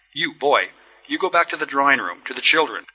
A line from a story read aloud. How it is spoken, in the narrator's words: said Julian Mastakovich, looking at the boy sternly